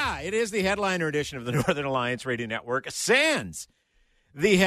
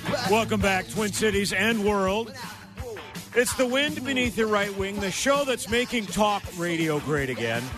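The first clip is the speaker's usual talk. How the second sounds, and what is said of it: Imitates another person's voice. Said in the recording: “best Mitch Berg impersonation”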